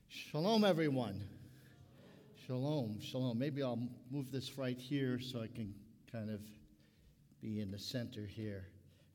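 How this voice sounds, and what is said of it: Brooklyn accent. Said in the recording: “you might detect my Brooklyn accent. And it comes out every now and then”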